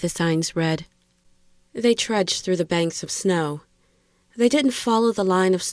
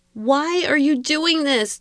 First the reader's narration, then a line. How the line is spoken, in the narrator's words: Dana screamed at him